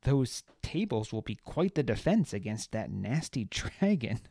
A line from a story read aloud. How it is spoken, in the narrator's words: Baz said before falling into another fit of laughter